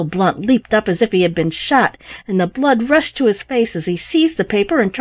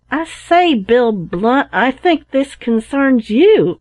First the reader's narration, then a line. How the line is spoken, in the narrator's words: cried Tom